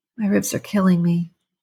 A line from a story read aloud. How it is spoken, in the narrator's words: she moaned